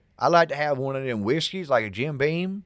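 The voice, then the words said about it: Put-on Southern US accent. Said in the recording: “Brooke's accent is endearing, and the ladies in the South love it. But in New York City, it didn't quite cut it.”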